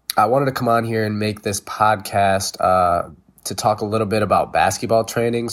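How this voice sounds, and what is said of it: Sick, funny-sounding voice. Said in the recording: “I am a little bit sick, so if my voice sounds funny”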